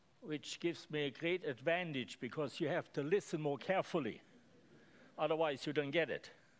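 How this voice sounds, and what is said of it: Speaks with a noticeable accent. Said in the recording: “I have accent. I speak a little bit funny”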